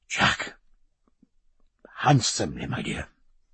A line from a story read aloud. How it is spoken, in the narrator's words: he whispered